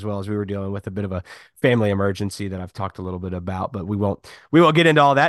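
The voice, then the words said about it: Sick, rough-sounding voice. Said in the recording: “I'm kind of unhealthy. So if my voice sounds terrible this week, I apologize.”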